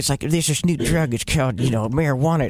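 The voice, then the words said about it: George W. Bush impression. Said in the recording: “That's a pretty good Bush impression.”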